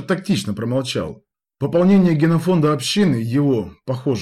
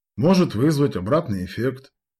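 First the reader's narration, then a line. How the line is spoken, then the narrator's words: Muttered. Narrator (Russian): пробормотал Масленников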